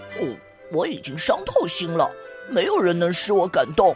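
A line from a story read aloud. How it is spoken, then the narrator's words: Muttering. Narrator (Chinese): 雪人咕哝道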